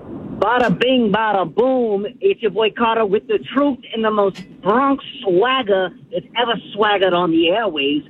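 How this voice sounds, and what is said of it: Exaggerated Bronx accent. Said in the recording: “I need, like, a Bronx attitude. I need a Bronx voice. I want a Bronx accent.”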